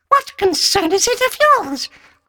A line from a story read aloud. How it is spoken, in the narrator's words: asked the little beast in a high, fluting, quavering voice